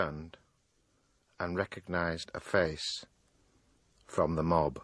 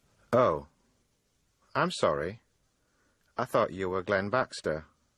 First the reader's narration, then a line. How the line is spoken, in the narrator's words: said the man